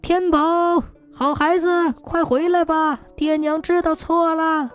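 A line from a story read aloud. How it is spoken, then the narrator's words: Calling out. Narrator (Chinese): 大友和腊梅对着金光里的小孩喊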